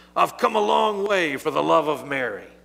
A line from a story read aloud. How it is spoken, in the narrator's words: disguising his grief, he said in a loud voice